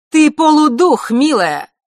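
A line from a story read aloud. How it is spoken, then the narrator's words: Sudden sharp shout. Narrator (Russian): вдруг резко выкрикнула Елена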